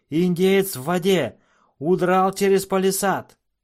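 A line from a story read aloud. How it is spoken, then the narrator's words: Soldiers roaring. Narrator (Russian): Солдаты и вольные всадники взревели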